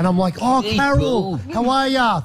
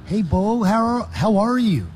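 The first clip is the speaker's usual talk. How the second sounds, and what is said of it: Imitated woman's accent. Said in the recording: “An accent right... But her accent is”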